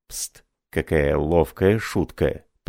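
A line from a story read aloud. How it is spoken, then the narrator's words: Whisper. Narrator (Russian): прошептал Марлот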